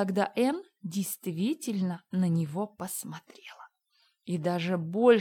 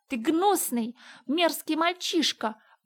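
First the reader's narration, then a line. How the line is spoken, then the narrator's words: Passionate exclamation. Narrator (Russian): воскликнула она страстно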